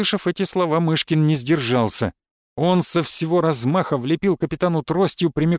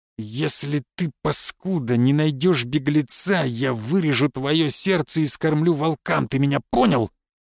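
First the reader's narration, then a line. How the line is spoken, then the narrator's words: Menacing hiss. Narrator (Russian): прошипел граф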